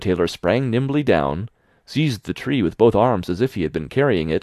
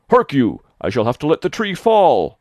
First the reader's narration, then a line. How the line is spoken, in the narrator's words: The giant, after he had dragged the heavy burden part of the way, could go no further, and cried